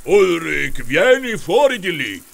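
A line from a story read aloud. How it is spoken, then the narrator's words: Troll grumbling. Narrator (Italian): brontolò il troll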